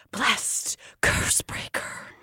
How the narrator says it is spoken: The people are stunned and begin to whisper

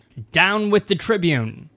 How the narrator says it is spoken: They were yelling

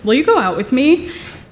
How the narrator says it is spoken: he clears his throat, and he says kind of nervously

